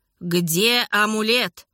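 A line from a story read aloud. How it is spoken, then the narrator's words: Growling, devilishly cunning. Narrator (Russian): с дьявольски коварным выражением лица и прорычал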